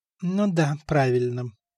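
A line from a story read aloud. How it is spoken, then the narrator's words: Muttered under breath. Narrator (Russian): буркнул себе под нос Стефан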